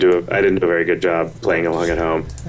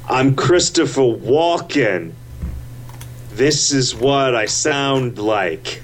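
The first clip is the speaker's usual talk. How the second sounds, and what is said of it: Poor Christopher Walken impression. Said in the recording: “do a Christopher Walken impression ... Yeah, see, I'm not good at that at all.”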